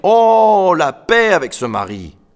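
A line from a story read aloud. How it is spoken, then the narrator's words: Man grumbling. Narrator (French): grommela l'homme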